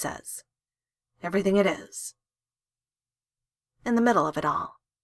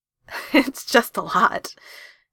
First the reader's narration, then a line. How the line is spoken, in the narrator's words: he says, laughing